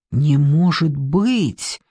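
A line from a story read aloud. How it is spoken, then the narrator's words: Whisper, then loud repeat. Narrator (Russian): прошептал он и повторил уже громко на весь кабинет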